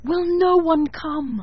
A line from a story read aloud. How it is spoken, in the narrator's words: it cried